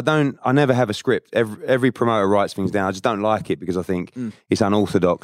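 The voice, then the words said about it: Cockney English accent. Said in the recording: “you got a great accent too ... is that a Cockney accent? ... Yes.”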